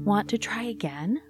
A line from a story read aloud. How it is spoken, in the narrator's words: Mom asked